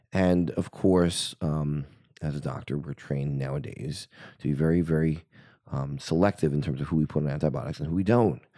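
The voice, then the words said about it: Slightly husky, cold-affected voice. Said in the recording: “my voice is a little bit sultry today, it's because I've come down with a cold”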